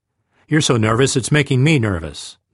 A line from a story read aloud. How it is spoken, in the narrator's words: the trooper said